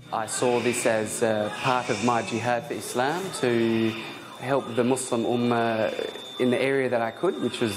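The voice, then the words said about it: Australian accent. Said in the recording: “a man with an Australian accent”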